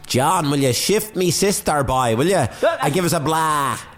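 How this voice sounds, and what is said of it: Exaggerated Waterford Irish accent. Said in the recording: “put on the biggest Waterford accent you can, boy ... That's no good, boy.”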